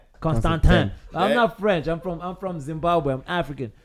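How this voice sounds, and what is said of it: Zimbabwean African accent. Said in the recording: “you've got a cute accent ... So I got the super accent.”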